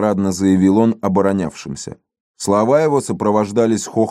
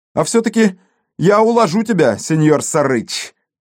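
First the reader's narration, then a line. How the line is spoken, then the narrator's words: Courteous shout. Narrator (Russian): любезно крикнул Фрэнсис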